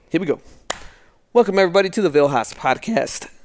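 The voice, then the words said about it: Voice cracks mid-sentence. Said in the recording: “my voice cracked right there”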